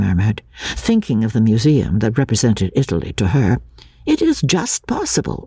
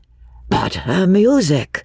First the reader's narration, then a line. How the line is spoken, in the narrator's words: he exclaimed